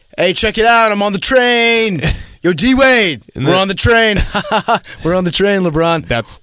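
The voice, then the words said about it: Impression of LeBron and D-Wade. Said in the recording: “I'm going to do a little impression. ... That was PFT doing LeBron and D-Wade on the train.”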